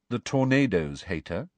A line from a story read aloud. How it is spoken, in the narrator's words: said Cho, rather coolly